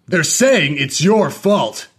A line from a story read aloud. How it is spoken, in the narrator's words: his dad said angrily